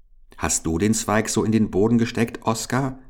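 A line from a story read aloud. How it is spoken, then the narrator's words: Plain. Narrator (German): fragte Paul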